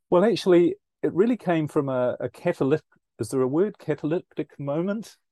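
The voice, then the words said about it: New Zealand accent. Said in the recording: “as you might pick up from my accent, I'm originally from New Zealand”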